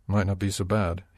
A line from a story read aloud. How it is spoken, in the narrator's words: he muttered